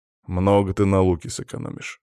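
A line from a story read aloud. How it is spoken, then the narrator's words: Gruff mutter. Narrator (Russian): буркнул он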